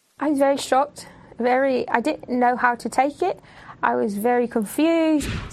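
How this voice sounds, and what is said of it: British-sounding accent. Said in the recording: “her voice. ... Is from England. ... came out with a new British accent.”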